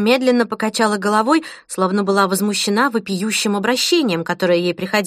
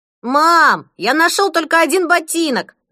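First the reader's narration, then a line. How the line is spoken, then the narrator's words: Yelling from hallway. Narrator (Russian): завопил Фред из коридора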